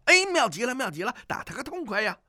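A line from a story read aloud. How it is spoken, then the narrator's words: Loud shout. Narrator (Chinese): 风波恶大叫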